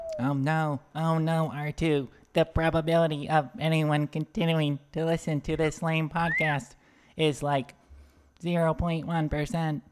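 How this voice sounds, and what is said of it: Weak impersonation of robot character. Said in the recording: “that was a lame impersonation”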